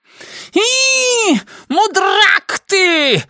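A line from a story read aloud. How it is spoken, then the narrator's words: Shrieking. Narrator (Russian): завизжал метр Дот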